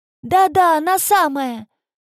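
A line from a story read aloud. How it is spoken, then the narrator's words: Joyful upside-down reply. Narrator (Russian): радостно отозвался тип, вися вниз головой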